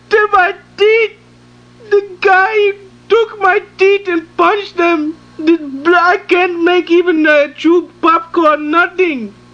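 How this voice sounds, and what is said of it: Screaming, distressed voice. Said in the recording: “Why are you screaming?”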